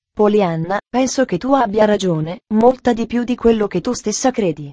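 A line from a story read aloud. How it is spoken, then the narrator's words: Soft quiet. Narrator (Italian): disse piano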